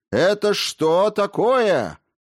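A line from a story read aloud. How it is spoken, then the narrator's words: Shouting. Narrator (Russian): закричал рассказчик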